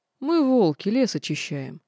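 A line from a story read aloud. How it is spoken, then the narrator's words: Chuckling. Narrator (Russian): хохотнул красавчик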